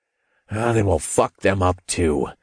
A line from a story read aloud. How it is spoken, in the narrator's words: I growled